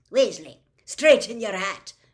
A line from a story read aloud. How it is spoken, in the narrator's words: Professor McGonagall snapped at Ron